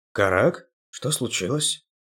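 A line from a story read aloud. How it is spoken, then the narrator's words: Quiet, wary question. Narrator (Russian): тихо спросил Ингун, поскольку позади них стоял свирепый глаз и 20 его кентавров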